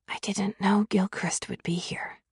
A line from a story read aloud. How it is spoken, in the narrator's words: I whispered